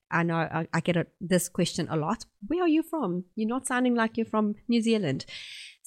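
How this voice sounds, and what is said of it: South African accent. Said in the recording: “I have a South African accent.”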